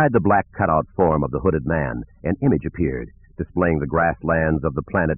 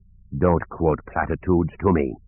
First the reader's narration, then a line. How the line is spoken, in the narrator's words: the dark man said in a cold, vibrating voice